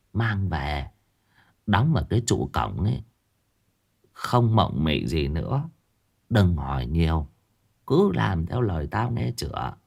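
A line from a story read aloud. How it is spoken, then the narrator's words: Old woman speaking softly. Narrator (Vietnamese): bà cụ khẽ khẽ nhỏ giọng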